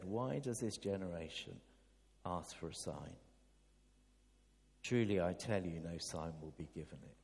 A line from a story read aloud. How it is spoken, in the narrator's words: he sighed deeply and said